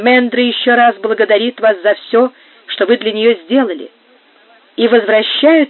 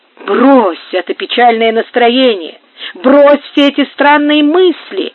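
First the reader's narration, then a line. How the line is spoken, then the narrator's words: Exclaiming. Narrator (Russian): воскликнул Горацио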